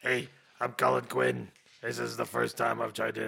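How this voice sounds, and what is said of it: Poor imitation of another person's voice. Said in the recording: “That's a really bad Colin Quinn.”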